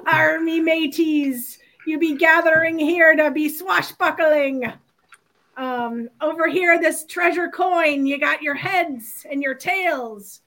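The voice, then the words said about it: Pirate voice impression. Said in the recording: “your best pirate impression”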